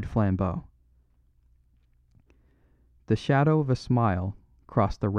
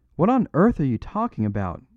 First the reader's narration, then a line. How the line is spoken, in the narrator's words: asked the other